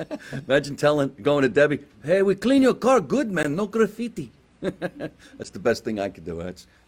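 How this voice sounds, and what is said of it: Put-on Providence, Rhode Island accent. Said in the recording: “That's my Providence, Rhode Island accent.”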